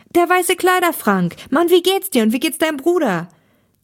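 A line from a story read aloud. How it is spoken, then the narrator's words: Delighted exclamation. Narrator (German): rief Thomas erfreut aus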